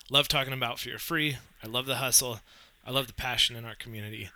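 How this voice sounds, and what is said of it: Raspy, congested voice. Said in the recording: “My apologies if I sound a little like I'm underwater or a little raspy. I got kind of funky cold”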